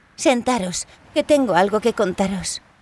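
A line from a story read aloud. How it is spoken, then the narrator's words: Sighing, resigned. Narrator (Spanish): Larisa suspiró, les dijo a los chicos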